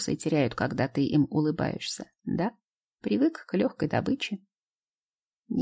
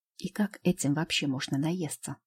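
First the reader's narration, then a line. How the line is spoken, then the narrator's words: Whispered question. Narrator (Russian): спрашивает шепотом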